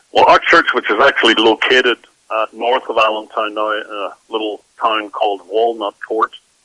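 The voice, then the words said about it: Northern Irish accent. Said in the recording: “As you can probably tell by my accent, I'm not a native of this country ... I grew up in Northern Ireland”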